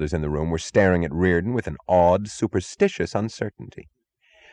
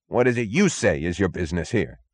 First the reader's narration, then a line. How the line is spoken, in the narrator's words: snapped the chief